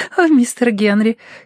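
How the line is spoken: Giggling. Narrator (Russian): хихикнула она

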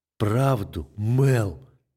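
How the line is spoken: Restrained fury through teeth. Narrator (Russian): Сквозь зубы произношу, едва сдерживая внутреннего зверя

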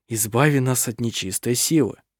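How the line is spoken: Murmured prayer. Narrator (Russian): слышалось бормотание молитвы

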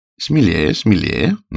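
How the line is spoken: Mocking taunt. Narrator (Russian): насмешливо подзадоривал

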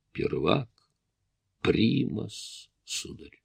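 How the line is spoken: Quiet. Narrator (Russian): Ян негромко проговорил

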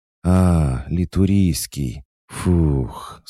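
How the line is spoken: Relieved exhale. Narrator (Russian): с облегчением выдохнуло существо

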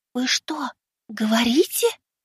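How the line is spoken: Whisper. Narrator (Russian): прошептала Синицына

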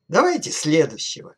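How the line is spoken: Cheerful command. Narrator (Russian): весело приказал

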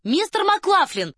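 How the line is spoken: Ringing shout. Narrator (Russian): звонко крикнула она

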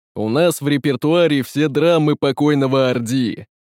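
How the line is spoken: Booming bass, as from barrel. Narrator (Russian): пробасил словно из бочки тиран

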